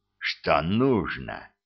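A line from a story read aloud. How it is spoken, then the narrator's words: Hissed. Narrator (Russian): прошипел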